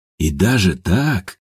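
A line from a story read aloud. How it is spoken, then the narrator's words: Soft laugh. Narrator (Russian): тихо засмеялся Степан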